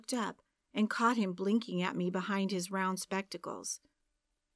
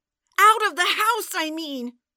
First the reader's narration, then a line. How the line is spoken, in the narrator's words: I yelled